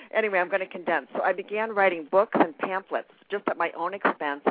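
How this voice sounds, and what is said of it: Very fast talking. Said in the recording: “I'm from New York, so I'm talking so fast.”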